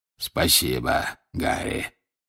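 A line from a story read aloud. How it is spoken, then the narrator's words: Hoarse rasp. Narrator (Russian): прохрипел Грюм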